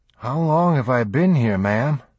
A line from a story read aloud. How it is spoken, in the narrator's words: Jeff breathed and was surprised at the physical effort it cost him to speak